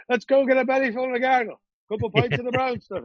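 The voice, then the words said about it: Put-on Irish accent. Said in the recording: “I went to Ireland ... you pick up the accent.”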